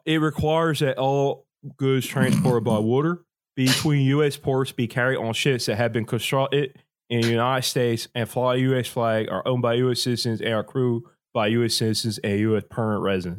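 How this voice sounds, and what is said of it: Put-on Delaware County Philly-area accent. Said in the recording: “You tell me an accent. I can do it with. All right, I'll just do. I'll do Delco Dave.”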